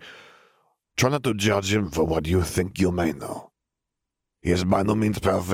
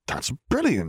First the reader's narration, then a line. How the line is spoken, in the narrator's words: Harry exclaimed